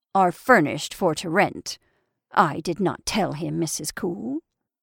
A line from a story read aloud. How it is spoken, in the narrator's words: Purdy, in her furriest tone